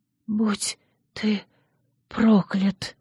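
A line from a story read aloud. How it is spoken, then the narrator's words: Inaudible whisper. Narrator (Russian): неслышно шепнули губы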